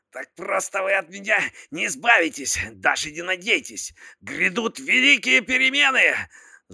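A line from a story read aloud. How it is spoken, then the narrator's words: Shouting while struggling. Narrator (Russian): закричал Залман, пытаясь вырваться из цепких лап капитана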